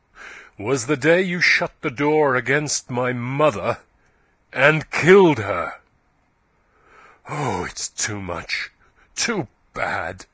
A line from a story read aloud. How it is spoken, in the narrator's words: said Yeobright, his voice growing louder and harsher